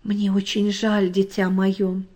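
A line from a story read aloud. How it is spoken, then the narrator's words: Plain. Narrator (Russian): сказал папа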